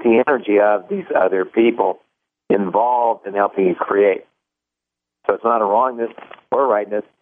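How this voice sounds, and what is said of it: Strained, failing voice. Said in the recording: “my voice is going... I've been yelling today.”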